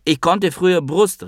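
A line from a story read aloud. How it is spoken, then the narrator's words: Calling out. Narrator (German): rief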